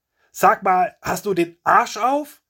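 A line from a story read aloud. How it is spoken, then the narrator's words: Shouting. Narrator (German): er brüllt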